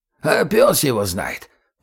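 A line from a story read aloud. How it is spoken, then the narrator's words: Creaky, vexed. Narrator (Russian): проскрипел Гоша, как показалось Егору с досады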